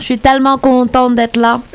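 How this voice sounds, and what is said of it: Imitated Québécois French accent. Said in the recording (French): “Est-ce qu'elle fait bien l'accent ou pas ? ... On reconnaît. ... J'adore cet accent.”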